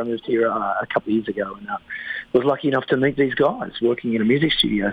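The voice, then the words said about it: Australian accent. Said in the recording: “your accent doesn't really sound Quebecois ... I'm from Australia”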